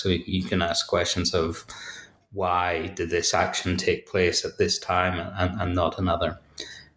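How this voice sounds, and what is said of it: Northern Irish Belfast accent. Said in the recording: “as you may hear from, from my accent, uh, I'm from Belfast”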